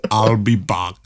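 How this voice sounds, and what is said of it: Imitates the Terminator movie character. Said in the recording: “Good impression.”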